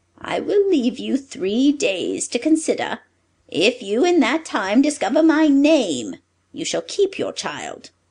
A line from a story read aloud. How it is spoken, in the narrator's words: the dwarf pitied her and said